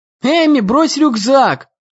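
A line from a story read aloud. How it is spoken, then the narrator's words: Shout. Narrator (Russian): крикнул ей Дэн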